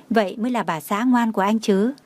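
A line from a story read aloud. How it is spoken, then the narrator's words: Smug, smiling. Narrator (Vietnamese): Anh ta mỉm cười đắc ý và nói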